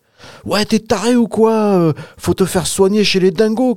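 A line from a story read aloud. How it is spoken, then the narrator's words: Shouting. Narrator (French): cria Lucas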